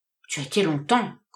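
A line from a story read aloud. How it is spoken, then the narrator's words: Grumbling. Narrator (French): grommela-t-il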